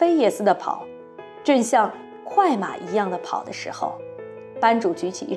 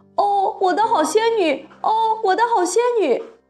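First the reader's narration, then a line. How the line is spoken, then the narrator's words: Loud long donkey bray. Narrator (Chinese): 他发出来的不是人话，而是驴叫声，叫得又响又长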